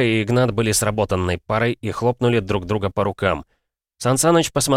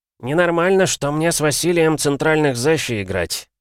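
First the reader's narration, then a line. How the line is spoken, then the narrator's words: Grumbling. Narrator (Russian): проворчал Дрозд, он же Дятел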